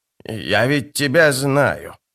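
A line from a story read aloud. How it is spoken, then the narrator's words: Hiss. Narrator (Russian): прошипела она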